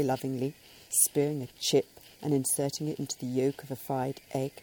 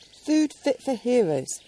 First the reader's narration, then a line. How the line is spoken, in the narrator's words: would sigh contentedly